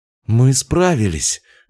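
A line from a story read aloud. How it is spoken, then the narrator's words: Breathless exhale. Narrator (Russian): выдохнула Соня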